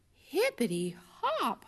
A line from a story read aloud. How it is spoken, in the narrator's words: Hoppy exclaimed